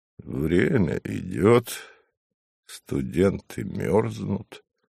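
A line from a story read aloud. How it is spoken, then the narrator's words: Mumbling, suppressed smile. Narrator (Russian): пряча улыбку, пробурчал Савва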